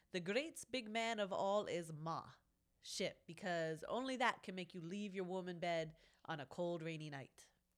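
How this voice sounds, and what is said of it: Put-on accent like Genghis Khan. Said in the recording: “I don't know what that accent is, but yeah, I felt like I had to. ... Can you read that not like somebody who's appropriating Genghis Khan?”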